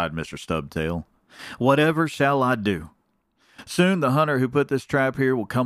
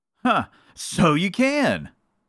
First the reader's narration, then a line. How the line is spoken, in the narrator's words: cried Mr